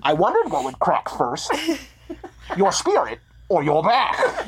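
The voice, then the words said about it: Bane impression. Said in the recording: “Bane voice, please. Gabrus does a good Bane. ... Shockingly good.”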